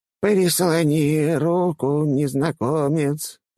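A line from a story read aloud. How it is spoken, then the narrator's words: Creaky old woman's voice. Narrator (Russian): проскрипела старуха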